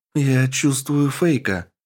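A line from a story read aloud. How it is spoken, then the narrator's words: Worried voice. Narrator (Russian): обеспокоенным голосом произнесла она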